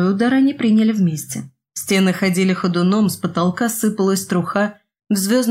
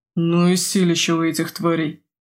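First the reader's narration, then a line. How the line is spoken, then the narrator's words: Pained groan. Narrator (Russian): простонал Крет, когда на плечо пришелся очередной удар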